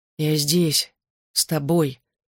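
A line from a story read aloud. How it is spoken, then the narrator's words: Hoarse, strange voice. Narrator (Russian): хриплым, каким-то не своим голосом повторял он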